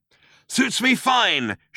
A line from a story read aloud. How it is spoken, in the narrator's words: shouted Zaphod back